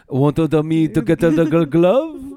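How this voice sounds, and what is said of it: Put-on French accent, bubbly. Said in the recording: “Like in a French accent. ... Is that a French? I just make bubbly noises.”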